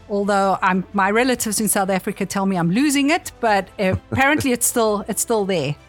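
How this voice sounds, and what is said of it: South African accent. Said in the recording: “you probably pick up on the accent ... It's a South African accent”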